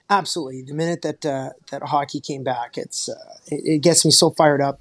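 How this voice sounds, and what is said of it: Canadian accent. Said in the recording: “he's from Canada ... my accent ... The high inflections and the A's and the enunciation”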